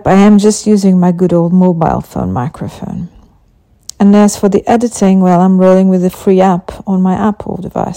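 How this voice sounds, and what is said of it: Non-native English accent. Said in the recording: “English is not my first language. So if my accent tickles your funny bone or leaves you scratching your heads”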